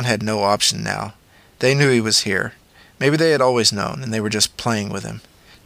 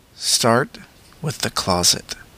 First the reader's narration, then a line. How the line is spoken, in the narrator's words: In a soft voice, he added